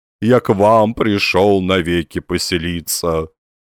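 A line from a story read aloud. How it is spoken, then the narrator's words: Lowing cow-like voice. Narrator (Russian): повторил Лоханкин коровьим голосом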